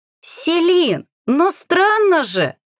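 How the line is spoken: Squealing, caught girl. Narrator (Russian): С визгом пропищала пойманная Аги

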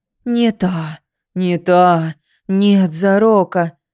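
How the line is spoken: Disappointed exhale. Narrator (Russian): разочарованно выдохнула в тумане

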